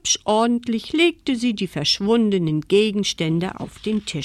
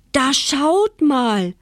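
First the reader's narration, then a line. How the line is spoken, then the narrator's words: Delighted old man calling. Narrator (German): rief das erfreute Väterchen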